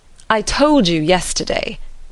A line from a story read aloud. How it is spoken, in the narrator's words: cried Mr